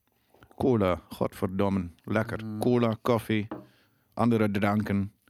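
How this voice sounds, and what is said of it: Drents accent, teeth clenched. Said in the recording (Dutch): “doe weer eens dat Drentse, uh, doe, doe, weer dat Drentse accent ... met de tanden op elkaar praten”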